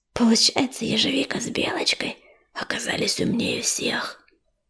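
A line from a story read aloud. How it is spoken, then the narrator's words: Whisper in ear. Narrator (Russian): прошептал Сумрак на ухо своему брату Сероусу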